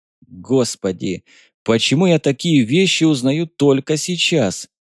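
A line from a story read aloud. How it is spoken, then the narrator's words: Helpless groan. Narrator (Russian): застонал от бессилия майор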